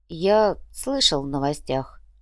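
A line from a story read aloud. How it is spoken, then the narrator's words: Sigh. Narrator (Russian): вздохнул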